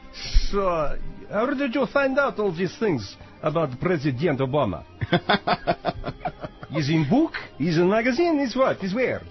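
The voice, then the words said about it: Exaggerated comic Russian accent. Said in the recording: “his funny Russian accent that sounds like playing a record backwards”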